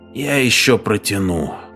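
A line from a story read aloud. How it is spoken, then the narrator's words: Muttering. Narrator (Russian): пробормотал Лингман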